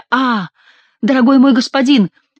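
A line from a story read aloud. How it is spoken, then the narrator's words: Exclamation, familiar voice. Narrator (Russian): воскликнул очень знакомый голос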